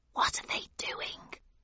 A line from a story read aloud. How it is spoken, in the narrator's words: I whispered to the Griffin